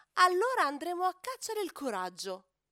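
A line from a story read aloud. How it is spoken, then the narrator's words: Elephant exclaiming. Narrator (Italian): Elefante esclama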